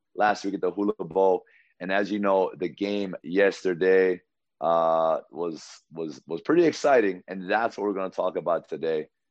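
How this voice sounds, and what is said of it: Worn, strained voice. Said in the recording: “excuse my voice, I've been coaching all week.”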